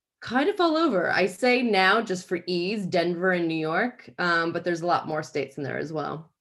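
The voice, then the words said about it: American accent with slight British tinge. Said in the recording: “I'm American, but have lived here for 10 years and can't kick it. But the more that I drink, the more kind of English British I sound”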